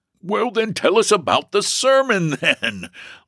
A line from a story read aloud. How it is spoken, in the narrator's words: laughed James